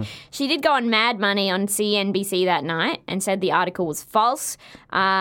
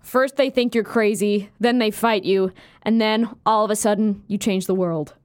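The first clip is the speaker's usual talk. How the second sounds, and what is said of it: Imitates another person's voice. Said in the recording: “That was a really good impersonation”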